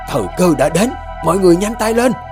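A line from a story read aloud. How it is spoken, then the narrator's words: Loud shout. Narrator (Vietnamese): Bà Dương hét lớn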